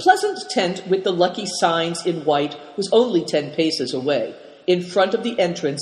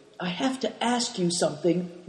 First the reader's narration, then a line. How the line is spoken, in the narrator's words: whispered Big Tiger